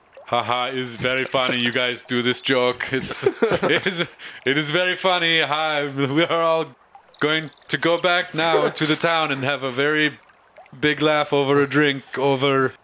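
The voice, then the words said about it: Poorly done put-on Austrian accent. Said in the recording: “I need a straight face to do the Austrian accent, we'll call it. ... I'm just slaughtering this fucking accent. I totally lost it.”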